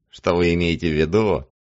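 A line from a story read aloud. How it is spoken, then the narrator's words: Mocking mimicry. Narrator (Russian): насмешливо ухмыляясь, Линус Беккер передразнивает Хесса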